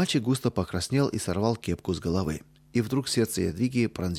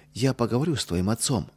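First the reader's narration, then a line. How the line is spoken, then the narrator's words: Gentle. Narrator (Russian): мягко сказала Ядвига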